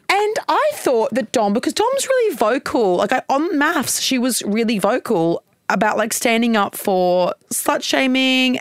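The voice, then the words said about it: Strong Queensland Australian accent. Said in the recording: “my accent's strong. My Queensland accent is also strong.”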